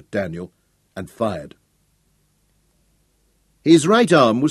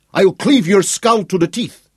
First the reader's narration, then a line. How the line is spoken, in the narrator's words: Schroeder roared